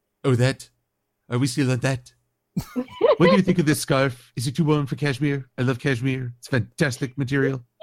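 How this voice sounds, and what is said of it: Imitates another person's voice. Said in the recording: “I talk like Donald Trump. It's fantastic. I'm the best Donald Trump impersonator ever.”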